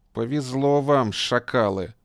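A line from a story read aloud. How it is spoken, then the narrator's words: Through gritted teeth. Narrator (Russian): процедил Хатуев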